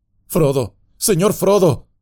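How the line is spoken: Exclaiming. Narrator (Spanish): exclamó

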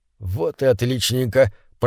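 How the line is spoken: Muttered. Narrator (Russian): пробормотал Рослик

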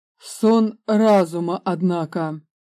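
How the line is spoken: Menacing. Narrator (Russian): грозно сказал

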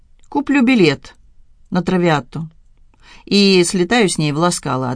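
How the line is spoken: Plain. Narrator (Russian): ответил я

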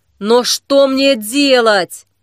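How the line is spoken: Exclaimed. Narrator (Russian): воскликнул Саблезуб

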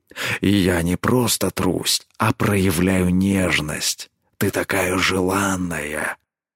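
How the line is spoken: Soft growl. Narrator (Russian): Тихо рыкнул он

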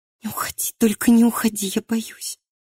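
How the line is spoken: Trembling plea. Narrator (Russian): просила дрожащим голосом

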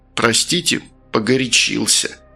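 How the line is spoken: Through gritted teeth. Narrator (Russian): процедил тот сквозь зубы

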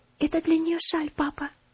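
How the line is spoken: Whispered in ear. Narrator (Russian): шепнула на ухо

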